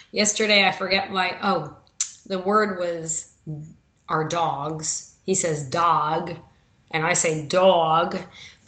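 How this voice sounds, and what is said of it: New York accent. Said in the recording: “my New York accent ... I am that northern where he thinks I mispronounce every word in the dictionary”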